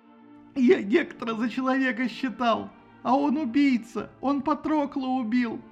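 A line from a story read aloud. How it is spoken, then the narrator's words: Moaning. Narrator (Russian): стонал Ахилл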